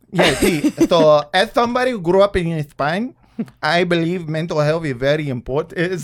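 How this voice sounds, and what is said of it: Put-on Spanish accent. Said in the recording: “that's a Spanish accent ... with a little bit of a lisp”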